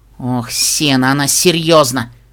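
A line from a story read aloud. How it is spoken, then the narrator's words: Strained, choked out. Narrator (Russian): выдавила розовая пони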